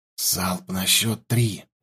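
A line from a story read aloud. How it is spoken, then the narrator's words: Whispered. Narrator (Russian): прошептал я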